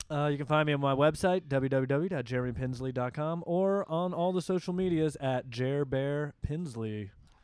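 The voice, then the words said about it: Fake announcer-style radio voice. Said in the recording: “you did that with a real radio voice... I had to radio it at the end... I had to sell it with my fake voice”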